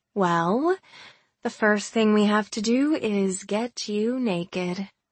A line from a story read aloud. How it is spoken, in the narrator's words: I drawled